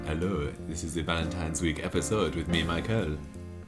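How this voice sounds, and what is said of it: Put-on French accent. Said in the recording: “What, is that supposed to be French? ... This is my French accent”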